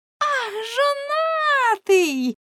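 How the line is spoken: Group shouting. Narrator (Ukrainian): закричали

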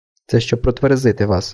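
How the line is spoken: Calm. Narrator (Ukrainian): спокійно сказав він

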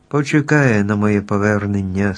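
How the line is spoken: Calm. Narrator (Ukrainian): спокійно мовив Страшило

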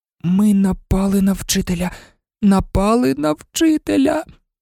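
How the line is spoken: Horrified moan. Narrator (Ukrainian): простогнала Герміона, нажахано

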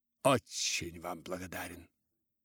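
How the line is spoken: Muttering. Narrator (Russian): пробормотал мистер Вальдер

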